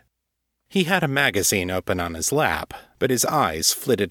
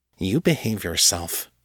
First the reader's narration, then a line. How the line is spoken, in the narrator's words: muttered under her breath